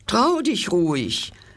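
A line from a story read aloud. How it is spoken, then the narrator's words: Mouse speaking. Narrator (German): sagte die Maus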